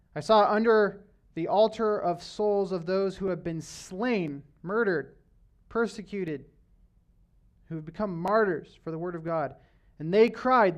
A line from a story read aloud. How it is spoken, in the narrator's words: the martyrs cried out